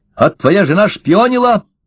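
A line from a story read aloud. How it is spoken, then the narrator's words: Sharp. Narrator (Russian): сказал Ложкин резко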